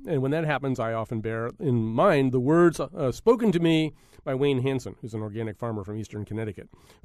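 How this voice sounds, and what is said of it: Congested voice with a cold. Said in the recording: “you can probably tell from the sound of my voice, I have a cold.”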